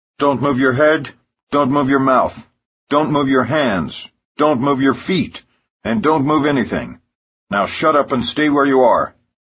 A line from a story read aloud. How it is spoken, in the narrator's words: barks guard Arnett in his first show of authority